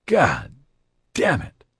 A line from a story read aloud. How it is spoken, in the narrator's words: Morton groaned